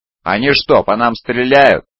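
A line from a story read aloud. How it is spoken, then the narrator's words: Yelling over loud noise. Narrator (Russian): завопил он, перекрывая визг двигателей и град мощных ударов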